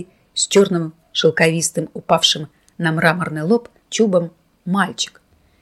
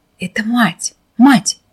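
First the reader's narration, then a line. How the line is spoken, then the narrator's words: Rapturous whisper. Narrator (Russian): восторженным шепотом объясняла высокая дама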